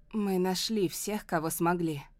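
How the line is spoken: Hoarse voice. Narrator (Russian): говорит ему Клементина, и голос ее звучит хрипло

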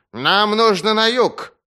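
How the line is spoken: Snapping retort. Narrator (Russian): огрызнулся

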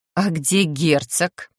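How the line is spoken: Mumbled to oneself. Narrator (Russian): словно для себя буркнула я

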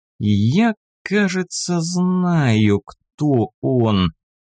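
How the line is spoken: Thoughtful drawl. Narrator (Russian): протянул задумчиво

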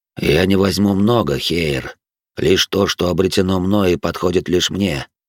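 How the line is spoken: Plain. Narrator (Russian): сказал белый дьявол

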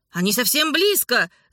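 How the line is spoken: Shout. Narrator (Russian): закричал он

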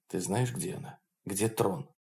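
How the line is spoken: Whisper in ear. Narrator (Russian): Холрейд прошептал на ухо

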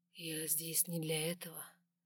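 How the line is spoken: Whisper close to ear. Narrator (Russian): прошептал он возле моего уха

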